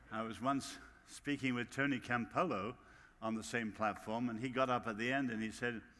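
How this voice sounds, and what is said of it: English accent. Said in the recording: “Don't take the English accent seriously for a minute.”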